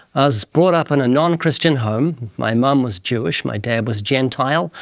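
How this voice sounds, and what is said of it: Slight New Zealand accent. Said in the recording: “You might notice a very slight accent. That's because I'm from the country of New Zealand.”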